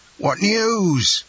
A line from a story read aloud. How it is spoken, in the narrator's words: exclaimed a general burst of voices